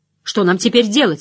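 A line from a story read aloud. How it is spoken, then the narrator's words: Angry question. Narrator (Russian): сердито спросила Найниф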